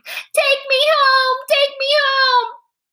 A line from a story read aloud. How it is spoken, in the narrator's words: Sam screamed